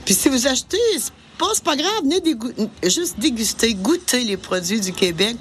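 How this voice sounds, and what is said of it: Québécois French accent. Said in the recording (French): “Un bel accent québécois”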